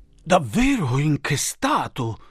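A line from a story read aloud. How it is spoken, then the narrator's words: Councillors exclaiming together. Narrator (Italian): esclamarono i consiglieri comunali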